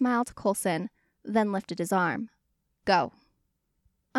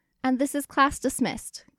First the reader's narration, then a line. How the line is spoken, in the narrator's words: Clint shouted over the cheers